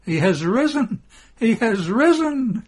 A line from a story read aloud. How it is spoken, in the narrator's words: she weeps happily